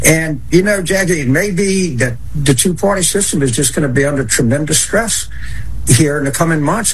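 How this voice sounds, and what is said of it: Twangy accent. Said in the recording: “when he's angry the twang comes out a little bit more, but I love his accent.”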